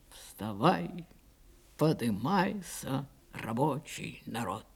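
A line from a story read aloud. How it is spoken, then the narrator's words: Quiet singing. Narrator (Russian): тихо запел Павел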